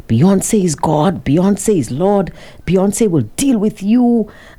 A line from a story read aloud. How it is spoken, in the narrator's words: this girl started yelling